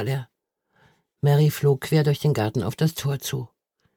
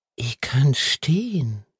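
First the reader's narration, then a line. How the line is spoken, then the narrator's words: Whispered. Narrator (German): flüsterte er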